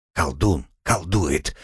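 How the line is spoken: Whispering coachman. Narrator (Russian): прошептал возница

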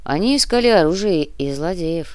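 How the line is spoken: Grumbling. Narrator (Russian): проворчал Кортес

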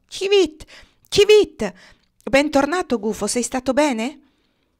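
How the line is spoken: Shout. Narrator (Italian): Una civetta nascosta sotto una grondaia s'agitò e gridò

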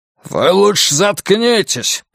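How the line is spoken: Guard's growl. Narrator (Russian): прорычал кто-то из конвоиров

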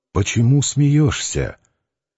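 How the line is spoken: Quiet husky question. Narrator (Russian): Варавка спросил негромко, сипло

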